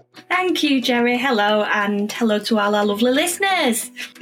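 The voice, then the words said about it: Speaks with a noticeable accent. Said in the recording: “got a bit of an accent”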